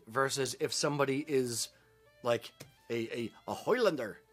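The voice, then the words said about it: Bad put-on Scottish accent. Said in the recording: “my horrible Scottish accent”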